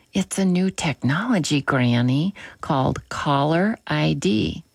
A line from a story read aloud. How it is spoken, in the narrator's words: The granddaughter giggled, and said